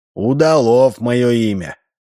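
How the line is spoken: Tired reply. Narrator (Russian): ответил устало Корнелий Иванович

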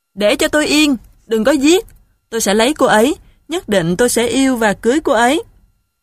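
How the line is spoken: Pained yelling. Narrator (Vietnamese): Vừa bị quật roi đầu tiên, cáo liền la lên

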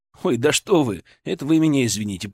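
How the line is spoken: Muttered. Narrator (Russian): пробормотал я

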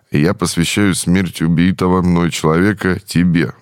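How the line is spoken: Said with a sigh. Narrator (Russian): вздохнув, произнес

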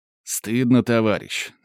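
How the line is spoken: Stern official youth-leader voice. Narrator (Russian): строго говорит оно голосом школьного комсорга

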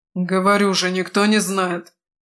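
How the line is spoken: Snappish retort. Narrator (Russian): огрызнулся Крет

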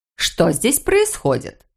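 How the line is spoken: Stern question. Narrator (Russian): спрашивает Норелли, строго

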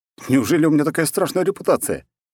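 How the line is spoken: Cheerful. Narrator (Russian): весело произнес я

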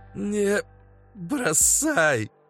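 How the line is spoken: Dying rasp. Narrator (Russian): Последний раз просипел бандит

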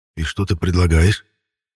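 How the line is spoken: Indignant whisper. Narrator (Russian): Шепотом возмутился

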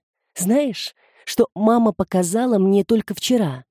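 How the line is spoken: Reverent whisper. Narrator (Russian): прошептала Тереза с благоговением

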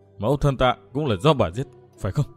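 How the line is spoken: Whisper. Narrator (Vietnamese): Ôn Cần miệng thì thào

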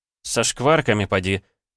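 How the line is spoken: Amused grunt. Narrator (Russian): хмыкнул я

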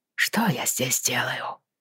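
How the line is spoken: Mutter. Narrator (Russian): пробормотал он

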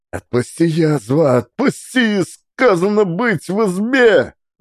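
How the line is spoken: Shrieking. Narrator (Russian): взвизгивал Евсей

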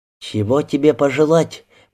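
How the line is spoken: Hushed near-whisper. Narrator (Russian): почти шепотом спросила Лида, боясь нарушить эту минуту

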